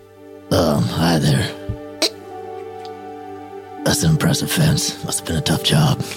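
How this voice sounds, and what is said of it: Put-on movie man voice. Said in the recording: “you don't have to put on a voice or anything ... That's how men talk in movies.”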